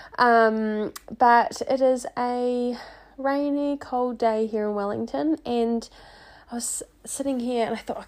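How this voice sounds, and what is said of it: Croaky, sniffly voice. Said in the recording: “I come to you today with a bit of a sniffle. So my voice is a little bit more croaky than normal, but just sounds a bit sexier”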